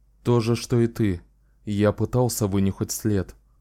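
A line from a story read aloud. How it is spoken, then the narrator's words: Calm. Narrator (Russian): спокойно ответил Ричард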